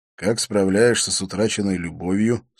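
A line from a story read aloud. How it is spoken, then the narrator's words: Plain. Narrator (Russian): спросил я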